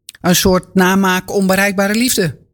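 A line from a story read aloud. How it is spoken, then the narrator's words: Plain. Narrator (Dutch): zegt Jochem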